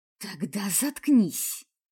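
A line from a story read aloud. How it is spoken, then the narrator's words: Hiss. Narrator (Russian): прошипела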